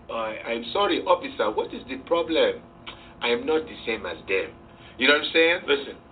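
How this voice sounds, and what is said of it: Put-on African accent. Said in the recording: “I used to try to use that African accent”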